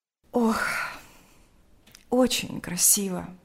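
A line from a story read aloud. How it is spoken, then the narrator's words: Sighing. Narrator (Russian): сказала она, вздохнув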